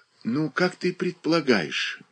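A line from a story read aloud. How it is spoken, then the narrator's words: Gentle. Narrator (Russian): начала Прилежаева, ласково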